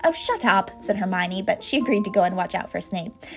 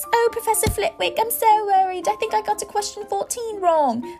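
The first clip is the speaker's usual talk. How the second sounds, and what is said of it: High-pitched mocking voice. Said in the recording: “put on a high voice”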